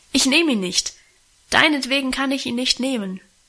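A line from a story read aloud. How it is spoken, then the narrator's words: Calling out. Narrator (German): rief sie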